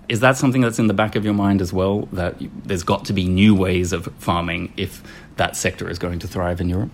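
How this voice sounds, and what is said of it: Australian accent. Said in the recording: “I come from Australia, you might have guessed from the accent.”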